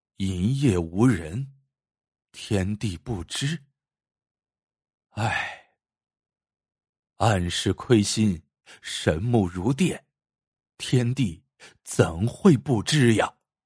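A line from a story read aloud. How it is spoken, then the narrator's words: Tearful murmur. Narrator (Chinese): 司马白忍不住泪如雨下，喃喃说道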